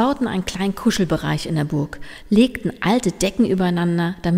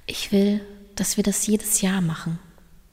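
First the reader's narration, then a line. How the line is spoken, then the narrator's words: Quiet answer. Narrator (German): antwortete Line leise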